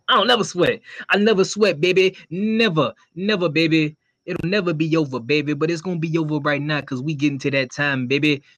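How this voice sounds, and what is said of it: Imitates another person's voice. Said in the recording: “I love doing his impersonation”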